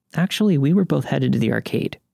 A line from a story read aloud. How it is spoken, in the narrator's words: she says harshly